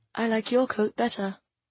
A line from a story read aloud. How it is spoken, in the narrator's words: said softly